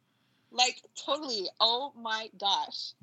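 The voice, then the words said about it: California Valley Girl accent. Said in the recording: “the only accent that I can do is like California Valley Girl.”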